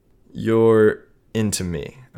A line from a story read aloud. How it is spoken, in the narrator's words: asked